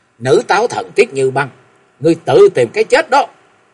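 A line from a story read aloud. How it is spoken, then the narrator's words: Sudden angry shout. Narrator (Vietnamese): Ngọc Long chợt nhiên nổi giận quát lên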